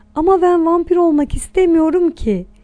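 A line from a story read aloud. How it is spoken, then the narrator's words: Shouting. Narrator (Turkish): diye bağırdı Anton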